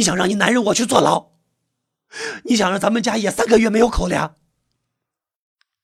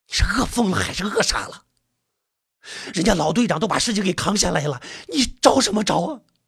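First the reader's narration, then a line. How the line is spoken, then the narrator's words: Hushed scolding. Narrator (Chinese): 网友跟这才敢压低声音骂梅花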